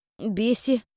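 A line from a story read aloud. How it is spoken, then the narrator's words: Surprised exhale. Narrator (Russian): Удивленно выдохнул Кайл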